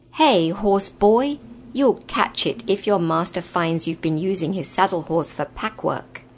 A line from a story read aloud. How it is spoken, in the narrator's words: with a rough laugh, saying